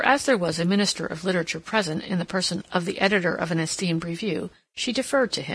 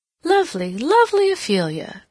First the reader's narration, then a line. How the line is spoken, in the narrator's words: she exclaimed